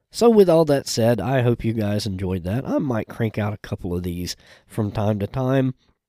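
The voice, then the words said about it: Sick, unwell-sounding voice. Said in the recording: “I apologize for my voice. I have been a little under the weather. ... some kind of viral upper respiratory infection”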